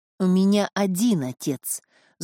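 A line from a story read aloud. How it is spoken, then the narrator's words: Angry hoarse wheeze. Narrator (Russian): зло просипел камердинер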